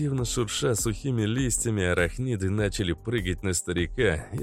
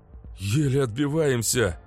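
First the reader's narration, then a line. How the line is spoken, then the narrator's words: Breathless young man. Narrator (Russian): выдохнул парень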